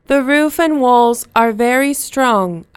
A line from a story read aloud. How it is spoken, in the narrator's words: I said